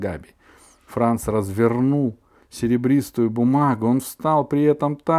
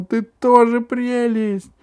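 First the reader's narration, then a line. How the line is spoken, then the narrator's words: Shouting. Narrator (Russian): Габи закричала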